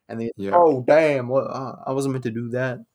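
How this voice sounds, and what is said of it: Poorly done put-on accent. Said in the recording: “That was a real bad accent.”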